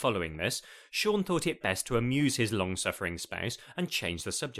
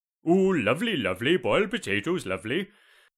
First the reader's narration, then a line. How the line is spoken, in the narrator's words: Sean rumbled in a bizarre Welsh accent